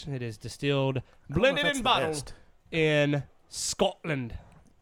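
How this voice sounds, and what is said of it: Put-on Scottish accent. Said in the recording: “Is that a Scottish accent, or what is that? ... It's close.”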